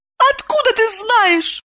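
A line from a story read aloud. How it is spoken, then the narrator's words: Squeaked. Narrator (Russian): пискнула Евдокия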